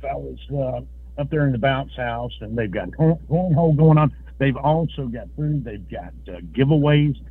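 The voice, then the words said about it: Slightly out of breath. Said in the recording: “I'm a little bit out of breath.”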